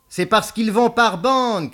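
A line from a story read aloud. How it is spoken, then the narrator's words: Shouted. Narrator (French): cria Beaumasque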